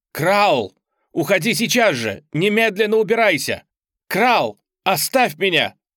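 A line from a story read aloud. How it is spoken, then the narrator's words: Shout aloud. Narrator (Russian): я крикнула это вслух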